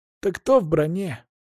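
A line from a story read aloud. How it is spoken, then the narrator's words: Young man sighing. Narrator (Russian): парень вздохнул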